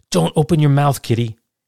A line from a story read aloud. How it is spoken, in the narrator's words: He blurted out